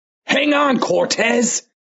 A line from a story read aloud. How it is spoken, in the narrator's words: Tim yelled in an annoyed voice